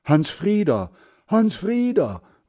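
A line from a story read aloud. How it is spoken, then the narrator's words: Fearful calling. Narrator (German): ruft er ängstlich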